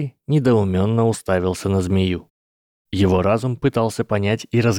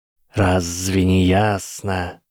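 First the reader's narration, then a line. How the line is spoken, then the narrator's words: Hissing snake. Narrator (Russian): прошипела змея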